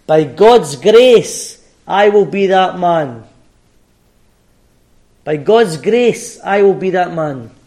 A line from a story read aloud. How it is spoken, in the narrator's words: Moody shouted back